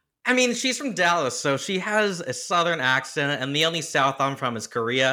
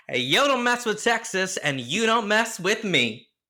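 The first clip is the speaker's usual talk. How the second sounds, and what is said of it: Impression of Texan woman, Southern accent. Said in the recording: “she's from Dallas, so she has a Southern accent, and the only South I'm from is Korea.”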